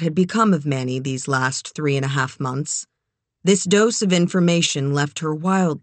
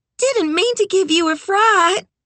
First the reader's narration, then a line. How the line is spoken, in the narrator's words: Beulah said with a child's laugh